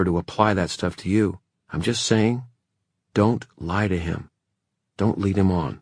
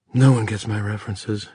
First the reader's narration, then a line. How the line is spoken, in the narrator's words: Emma muttered